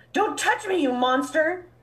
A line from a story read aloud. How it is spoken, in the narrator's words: Blythe cried the entire trip home